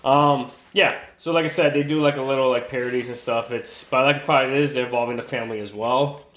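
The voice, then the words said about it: Strained, worn-out voice. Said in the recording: “my voice sounds kind of weird ... my voice is a little bit shot”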